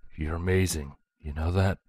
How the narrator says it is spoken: Broadsword whispered as their lips parted

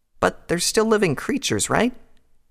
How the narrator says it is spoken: asked timidly

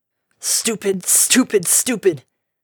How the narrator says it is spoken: She choked back sobs and gnashed her teeth

